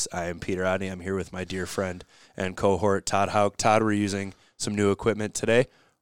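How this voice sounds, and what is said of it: Raspy, deep voice. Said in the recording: “with a little bit of a raspy Barry White voice”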